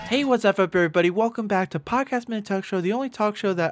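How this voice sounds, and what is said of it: Speaking very softly. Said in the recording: “I'm talking so soft.”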